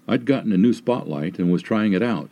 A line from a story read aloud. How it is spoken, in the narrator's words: the sergeant said